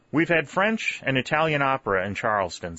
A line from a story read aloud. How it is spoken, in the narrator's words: said St